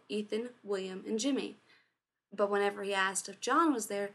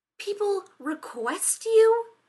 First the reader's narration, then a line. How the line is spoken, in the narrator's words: Rodney snapped